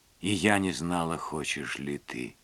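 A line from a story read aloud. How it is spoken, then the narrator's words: Mumble. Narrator (Russian): пробормотала Лилиан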